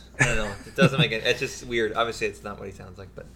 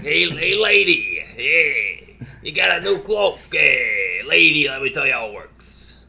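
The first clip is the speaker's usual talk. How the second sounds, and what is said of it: Raspy New York smoker character voice. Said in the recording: “a weird, you know, New York accent smoker”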